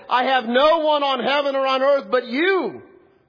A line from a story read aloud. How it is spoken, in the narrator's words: cried out and said